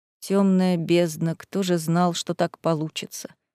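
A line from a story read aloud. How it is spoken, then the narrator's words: Woman muttering. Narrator (Russian): пробормотала блондинка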